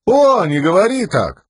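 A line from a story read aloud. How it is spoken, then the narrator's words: Giggling. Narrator (Russian): Лопан продолжал хихикать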